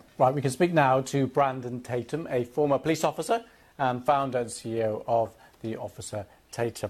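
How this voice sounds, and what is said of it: British accent. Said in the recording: “That's a fake British accent.”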